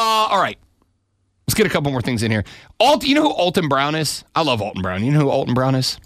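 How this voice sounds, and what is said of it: Usual voice. Nothing is said of it.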